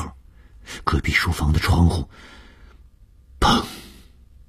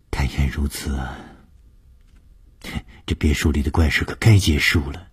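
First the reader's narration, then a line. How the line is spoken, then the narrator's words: Sighing. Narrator (Chinese): 叹了一口气说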